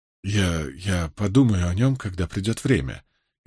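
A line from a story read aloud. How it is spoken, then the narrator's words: Barely audible, young woman. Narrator (Russian): еле слышно произнесла девушка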